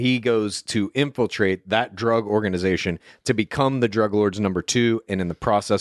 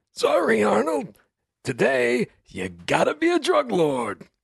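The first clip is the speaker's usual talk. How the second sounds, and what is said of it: Impersonated voice. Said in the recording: “That's one of your finest impersonations.”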